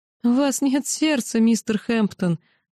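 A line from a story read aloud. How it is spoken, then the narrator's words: Sobbing mother. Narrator (Russian): зарыдала мать Густава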